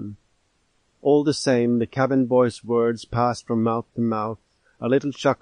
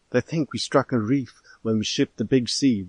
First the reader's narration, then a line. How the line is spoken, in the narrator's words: whispered the cabin boy